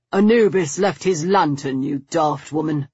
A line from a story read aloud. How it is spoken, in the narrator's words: Stoker grumbled